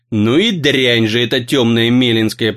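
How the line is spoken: Old man grumbling. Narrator (Russian): проворчал ему вслед старик

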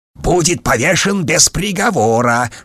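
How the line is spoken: Hiss. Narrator (Russian): шипел майор Вольф

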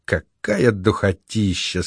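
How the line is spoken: Sleepy, tipsy voice. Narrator (Russian): сказала Марго полусонным, полупьяным голосом

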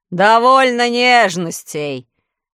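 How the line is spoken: Rough shout. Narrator (Russian): грубо закричал Урфинджус

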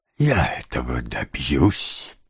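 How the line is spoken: Whispered. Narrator (Russian): прошептал Феджин

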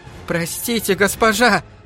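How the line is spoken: Frightened pleading. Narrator (Russian): взмолилась девка, которая слишком сильно надавила на гребень

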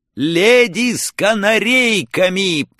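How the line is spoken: Foolish shouted reply. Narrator (Russian): по-дурацки прокричал я в ответ

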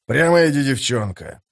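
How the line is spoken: Grumbling. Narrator (Russian): проворчал Беннет

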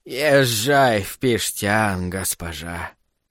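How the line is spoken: Creaky voice from behind. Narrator (Russian): проскрипели за спиной

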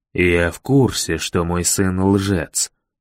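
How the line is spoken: Plain. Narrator (Russian): сказал мэр

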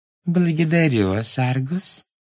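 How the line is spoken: Sugary sweet voice. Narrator (Russian): сладким голоском сказала она

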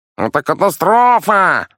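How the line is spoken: Yelling in alarm. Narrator (Russian): заорал мастер флакутона

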